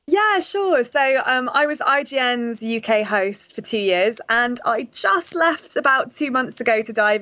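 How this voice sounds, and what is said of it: British accent. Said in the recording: “your lovely accent ... a British games journalist”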